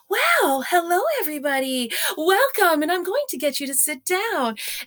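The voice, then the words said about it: Exaggerated sing-song voice for small children. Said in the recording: “doing that child voice ... you're talking like that”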